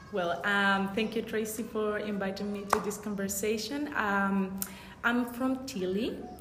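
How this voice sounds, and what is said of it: Foreign accent in English. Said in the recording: “Everybody's going to hear your beautiful accent now”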